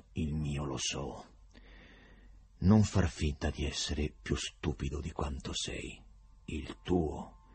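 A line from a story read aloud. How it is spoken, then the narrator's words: Quiet voice, prosecutor. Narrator (Italian): Il procuratore disse con voce sommessa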